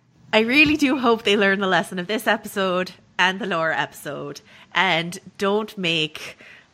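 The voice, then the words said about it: Deliberately bad Irish accent. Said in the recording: “terrible Irish accents ... my terrible Irish accent”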